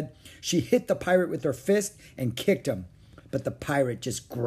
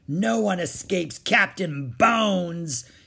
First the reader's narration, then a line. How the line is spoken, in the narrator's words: roared